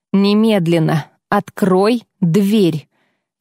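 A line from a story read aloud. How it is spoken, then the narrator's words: Firm commanding tone. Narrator (Russian): Я постаралась говорить твердо и приказным тоном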